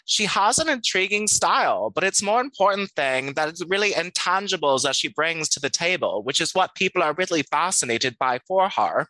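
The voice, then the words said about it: Imitating Anna Delvey's accent. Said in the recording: “I'm going to read this next one in my Anna Delvey accent.”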